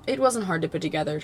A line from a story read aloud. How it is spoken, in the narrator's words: Jaime says quickly